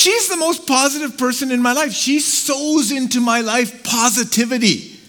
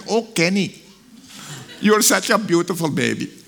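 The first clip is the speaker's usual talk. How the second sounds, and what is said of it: Imitated Pakistani accent. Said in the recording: “in her Pakistani accent”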